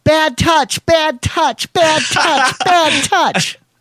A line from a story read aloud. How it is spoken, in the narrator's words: squealing